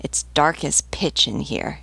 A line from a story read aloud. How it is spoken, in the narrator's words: grumbled